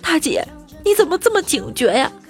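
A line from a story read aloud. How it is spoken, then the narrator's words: Crying question. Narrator (Chinese): 小偷就哭着问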